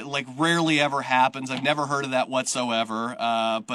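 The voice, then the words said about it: Sarcastic tone. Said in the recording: “I'm being sarcastic.”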